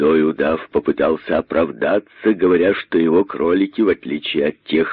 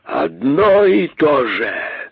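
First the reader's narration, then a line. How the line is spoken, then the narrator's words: Indignant hissing. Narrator (Russian): шипели возмущенные удавы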